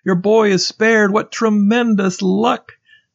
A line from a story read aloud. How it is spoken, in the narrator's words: Friends shouted